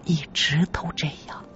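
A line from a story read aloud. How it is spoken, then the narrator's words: Woman, low, hesitant. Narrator (Chinese): 女人回想了片刻，又摇了摇头，低声说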